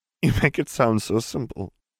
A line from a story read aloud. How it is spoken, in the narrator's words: he snorted, a watery chuckle escaping him